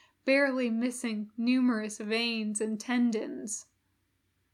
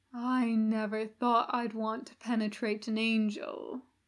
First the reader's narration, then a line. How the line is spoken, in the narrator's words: Hoster murmured